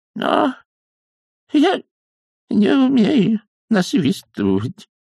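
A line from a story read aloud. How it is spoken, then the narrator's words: Trembling old man's voice. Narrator (Russian): дрожащим голосом оправдывался старикашка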